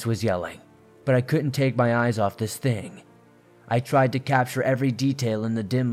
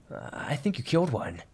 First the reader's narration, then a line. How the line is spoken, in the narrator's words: stammered